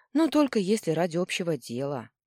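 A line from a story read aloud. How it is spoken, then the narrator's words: Sighing. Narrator (Russian): вздохнула я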